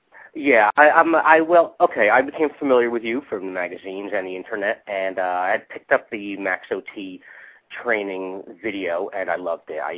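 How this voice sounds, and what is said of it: Congested voice from a cold. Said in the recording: “I have a little cold, so forgive me. That's why I sound a little this way.”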